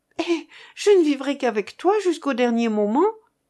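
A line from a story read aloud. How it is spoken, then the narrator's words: Exclaiming. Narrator (French): s'écria-t-elle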